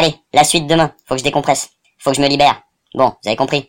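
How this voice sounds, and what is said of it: Usual voice. Nothing is said of it.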